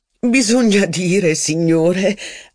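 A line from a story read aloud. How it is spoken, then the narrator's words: Laughing remark. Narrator (Italian): aggiunse ridendo Madame de Villeparisis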